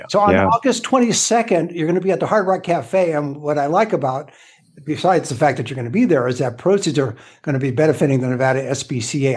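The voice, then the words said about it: Raspy hoarse voice. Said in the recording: “Pardon my voice ... You got a real kind of raspy, you know, it's like dripping honey in people's ears”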